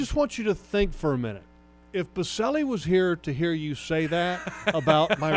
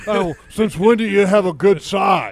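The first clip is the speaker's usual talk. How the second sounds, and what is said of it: Imitates another person's voice. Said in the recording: “my best Baselli impersonation”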